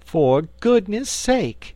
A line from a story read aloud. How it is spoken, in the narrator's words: she exclaimed on seeing the Frogman